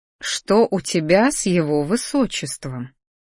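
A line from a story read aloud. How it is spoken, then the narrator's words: Sly, smiling. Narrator (Russian): медленно растянув улыбку на лице, произнесла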